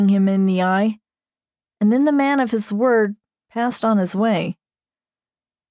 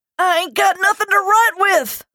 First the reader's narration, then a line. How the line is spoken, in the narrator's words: thundered Mr